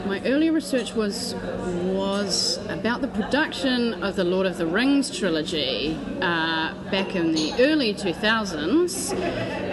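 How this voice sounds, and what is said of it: New Zealand Pakeha accent. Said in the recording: “as you can tell from her very convincing Pakeha accent”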